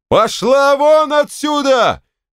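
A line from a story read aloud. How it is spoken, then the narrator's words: Yelling. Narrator (Russian): заорал Николай Николаевич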